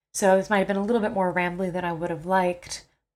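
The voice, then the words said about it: Sick, strained voice. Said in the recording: “I'm a little sick and now my voice is about to go anyway”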